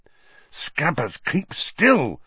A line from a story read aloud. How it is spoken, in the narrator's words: Ron hissed